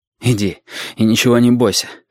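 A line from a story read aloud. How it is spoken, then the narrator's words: Breathed out. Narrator (Russian): выдохнул Валентин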